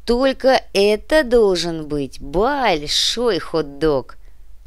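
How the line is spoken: Dreamy drawl. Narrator (Russian): мечтательно протянул Артем

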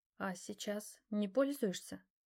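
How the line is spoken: Barely audible. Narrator (Russian): Она говорила так тихо, что я едва услышал вопрос

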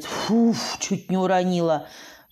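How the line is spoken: Two voices in unison. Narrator (Russian): вдвоем произнесли мы

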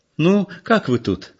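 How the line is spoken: Cheerful question. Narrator (Russian): спросила она весело

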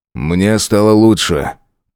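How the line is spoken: Grumbling. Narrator (Russian): проворчал

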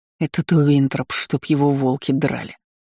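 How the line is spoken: Growled. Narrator (Russian): рыкнул Валет

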